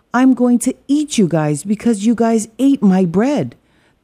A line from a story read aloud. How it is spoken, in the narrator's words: the wolf shouted